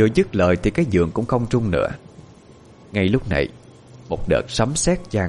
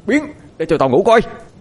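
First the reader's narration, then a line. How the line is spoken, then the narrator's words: Angry loud shout. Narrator (Vietnamese): Bực tức dâng lên, Quân quát lớn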